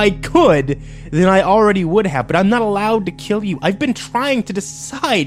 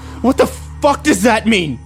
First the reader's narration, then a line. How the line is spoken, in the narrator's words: I yelled at him